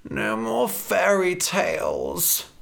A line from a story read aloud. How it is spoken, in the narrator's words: Red groaned